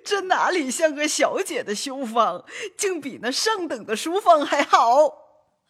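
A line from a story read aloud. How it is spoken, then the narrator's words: Laughing. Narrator (Chinese): 刘姥姥 方笑道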